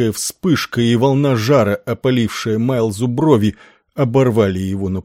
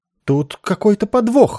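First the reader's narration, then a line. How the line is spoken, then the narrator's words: Shrill squeal. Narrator (Russian): взвизгнул Иенару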